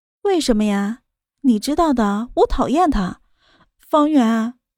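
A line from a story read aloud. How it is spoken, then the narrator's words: Soft, smiling. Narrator (Chinese): 米粒 她的脸上再次露出了笑容 柔声道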